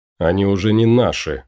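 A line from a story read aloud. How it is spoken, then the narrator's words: Snort. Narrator (Russian): фыркнул Кайл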